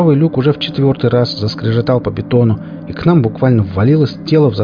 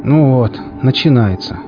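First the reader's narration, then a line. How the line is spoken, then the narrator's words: Sighing. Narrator (Russian): Седой вздохнул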